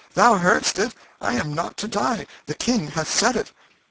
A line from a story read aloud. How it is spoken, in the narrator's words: turned a joyful face toward the two lords in waiting, and exclaimed